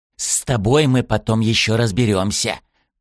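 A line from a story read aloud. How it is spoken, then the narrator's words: Hissed. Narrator (Russian): прошипел Зара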